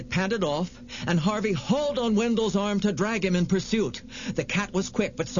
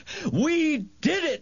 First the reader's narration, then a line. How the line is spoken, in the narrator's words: Wendell yelled